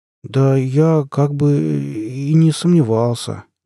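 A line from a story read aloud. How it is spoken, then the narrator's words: Uncertain drawl. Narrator (Russian): неуверенно протянул он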